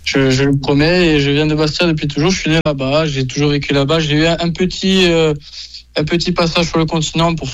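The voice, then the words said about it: Genuine Corsican accent. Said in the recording (French): “On entend quand même votre accent là, il n'est pas inventé... je n'imite pas cet accent pour me donner un style, c'est vrai, c'est un vrai accent”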